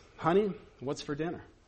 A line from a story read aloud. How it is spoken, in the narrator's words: In a normal tone, he asks